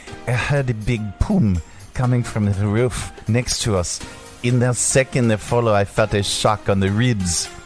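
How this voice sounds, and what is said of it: Put-on French accent. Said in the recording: “should I do it in a French accent?”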